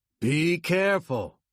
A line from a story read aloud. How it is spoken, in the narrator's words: he shouted